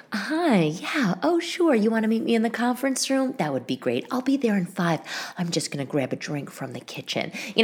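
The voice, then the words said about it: Polite corporate work voice. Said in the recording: “doing my voice ... my work voice”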